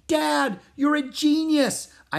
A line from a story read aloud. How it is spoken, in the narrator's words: I shouted